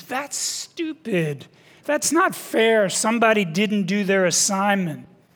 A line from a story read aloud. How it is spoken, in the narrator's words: the children exclaimed